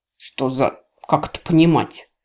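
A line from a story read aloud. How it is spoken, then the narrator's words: Stern question. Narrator (Russian): строго спросил Рос у своего мага-телохранителя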